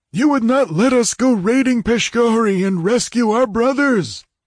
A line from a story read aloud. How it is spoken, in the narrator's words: A gaunt old chief shouted accusingly